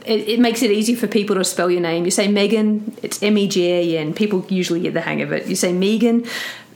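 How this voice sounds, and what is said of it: Australian accent. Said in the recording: “In Australia, I grew up saying Megan... my accent confuses people”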